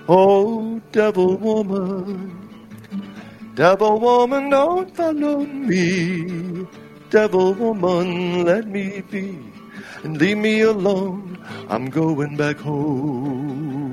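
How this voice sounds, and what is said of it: Singing in falsetto. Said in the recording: “falsetto sound that you have there... it just seems to fluctuate away from your normal voice”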